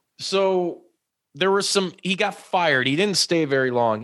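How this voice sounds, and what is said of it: Usual voice. Nothing is said of it.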